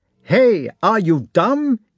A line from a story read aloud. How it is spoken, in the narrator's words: he shouted